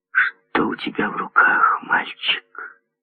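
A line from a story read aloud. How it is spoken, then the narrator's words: Barely audible question. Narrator (Russian): Еле слышно, спросила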